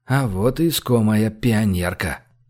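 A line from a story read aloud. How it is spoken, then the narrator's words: Hoarse female voice. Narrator (Russian): Голос у новоприбывшего был хриплый, но явно женский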